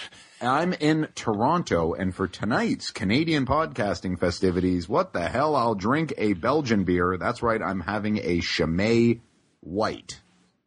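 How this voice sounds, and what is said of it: Imitates another person's voice. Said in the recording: “doing my best impersonation of Alan Thick, I suppose”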